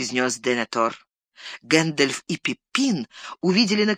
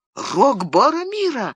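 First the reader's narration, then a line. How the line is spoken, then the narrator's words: Involuntary cry. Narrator (Russian): не удержавшись, вскрикнул Пиппин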